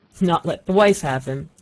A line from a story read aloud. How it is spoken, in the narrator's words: said the old man, and laughed